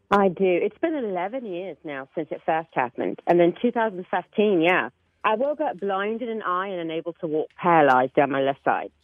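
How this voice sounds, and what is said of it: British accent. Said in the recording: “when you wake up, you have a British accent.”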